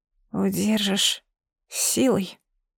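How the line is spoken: Mumbling. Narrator (Russian): промямлила я

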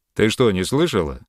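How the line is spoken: Rough question. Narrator (Russian): так же грубо, как перед тем его спутник, спросил Йолн

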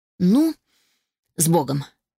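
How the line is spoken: Exhaled. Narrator (Russian): выдохнула я

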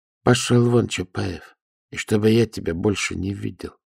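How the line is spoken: Quiet speech. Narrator (Russian): Ногтев сказал негромко

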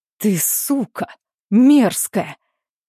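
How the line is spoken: Hissed through clenched teeth. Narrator (Russian): цедит сквозь зубы

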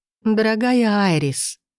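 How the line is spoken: Trembling, tearful breath. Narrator (Russian): выдохнула дрожащим голосом, скатилась крупная слеза

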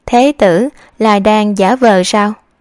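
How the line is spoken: Smiling. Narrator (Vietnamese): Giai Ninh mỉm cười

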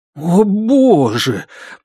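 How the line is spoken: Groaning. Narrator (Russian): простонал

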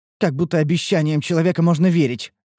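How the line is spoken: Scornful snort. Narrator (Russian): фыркнула Рен

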